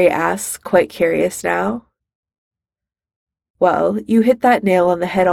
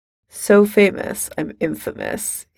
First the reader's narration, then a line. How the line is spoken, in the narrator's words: he says dryly